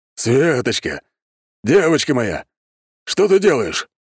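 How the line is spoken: Stunned exclamation. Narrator (Russian): воскликнул он, опешив от такой картины

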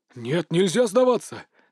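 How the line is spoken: Sudden roar. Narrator (Russian): неожиданно взревел Фань Минцы

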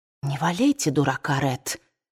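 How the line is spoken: Whispered reply. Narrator (Russian): шепотом ответила Скарлетт

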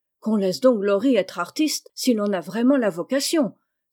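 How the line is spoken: Exclaimed. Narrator (French): s'écria Joe

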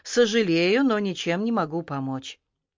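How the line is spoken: Sad, firm repetition. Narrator (Russian): гигант грустно твердо повторил

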